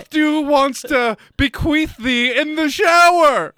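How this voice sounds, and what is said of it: Put-on exaggerated English accent. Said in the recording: “you're doing the stupid accent ... You can't fucking go English accent on that.”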